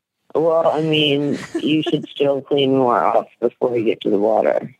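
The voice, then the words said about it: Creaky, vocal-fry voice. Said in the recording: “you hear that vocal fry, too? ... Did she just wake up from a nap or something?”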